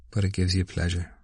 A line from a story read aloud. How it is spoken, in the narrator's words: said Stephen calmly